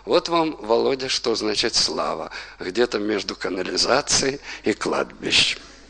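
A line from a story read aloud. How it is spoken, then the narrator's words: Quiet. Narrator (Russian): тихо сказал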